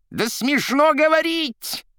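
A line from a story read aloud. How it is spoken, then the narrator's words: Shrill scream. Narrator (Russian): пронзительно закричал Римский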